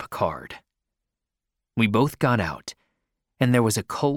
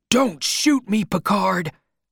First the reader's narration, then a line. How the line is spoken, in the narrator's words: I shouted